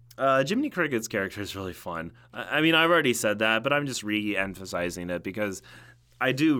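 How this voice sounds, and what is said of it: Usual voice. Nothing is said of it.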